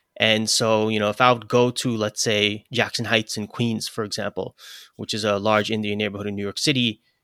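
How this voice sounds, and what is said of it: New York accent. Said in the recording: “I got like a New York accent”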